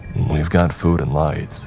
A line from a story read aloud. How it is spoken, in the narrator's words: he grumbled